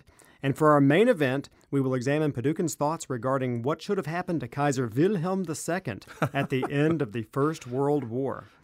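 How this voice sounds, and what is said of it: German accent, W said as V. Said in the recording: “you nailed it with the accent... You gotta say the V instead of the W”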